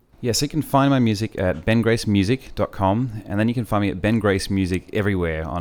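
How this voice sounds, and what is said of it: Australian accent. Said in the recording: “He has long brown hair, an Australian accent”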